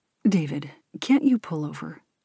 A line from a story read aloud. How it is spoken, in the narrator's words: asks Ben